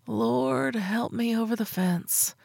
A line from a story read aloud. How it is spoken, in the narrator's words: I mumbled, covering my mouth with my palm, panic now a beating drum of doom between my ears